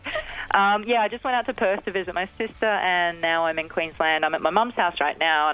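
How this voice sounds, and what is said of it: Australian accent. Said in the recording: “people love the Aussie accent, so I work really hard to keep it ... You're trying to keep that accent alive ... Queensland's the place to keep an Australian accent”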